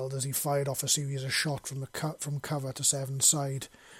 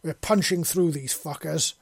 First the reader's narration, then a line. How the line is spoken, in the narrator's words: Seven bellowed